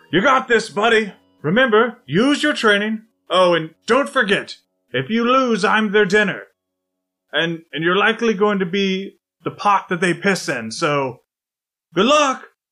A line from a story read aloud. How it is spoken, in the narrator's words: Declan shouts to Kato